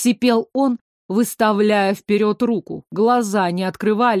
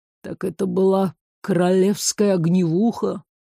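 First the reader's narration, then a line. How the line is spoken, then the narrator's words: Relieved groan. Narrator (Russian): Простонал, радуясь тому, что хоть что-то прояснилось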